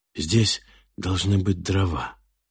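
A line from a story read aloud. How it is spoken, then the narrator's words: Quiet hoarse tired girl. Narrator (Russian): донесся откуда-то слева тихий, хриплый от усталости голос девушки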